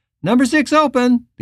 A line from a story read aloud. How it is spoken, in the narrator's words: cried back